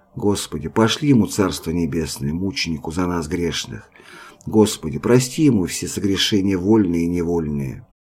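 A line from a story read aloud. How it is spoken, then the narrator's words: Women whispering. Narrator (Russian): Женщины шептали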